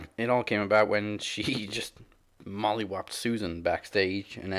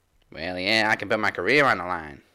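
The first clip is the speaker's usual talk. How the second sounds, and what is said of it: Put-on Southern New Orleans accent. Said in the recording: “Was that your New Orleans accent? ... my Jazz accent ... That was a little southern accent there.”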